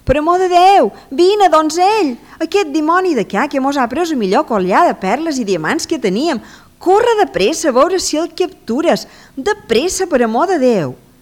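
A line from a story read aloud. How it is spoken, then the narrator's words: Desperate shouting. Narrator (Catalan): crides en donzell, cridant com un desesperat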